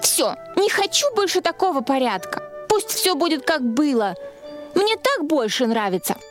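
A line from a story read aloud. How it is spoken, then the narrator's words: Irritated exclamation. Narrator (Russian): Она с раздражением воскликнула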